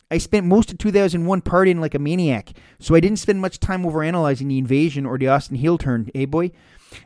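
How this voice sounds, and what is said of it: Put-on Canadian accent. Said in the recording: “Please read that with the appropriate Canadian accent. ... I'm not great at Canadian accents.”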